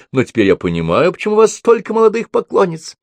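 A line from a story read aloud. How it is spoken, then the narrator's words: Smiling, charming. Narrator (Russian): Мередит Вьера чуть не рассмеялась, сказав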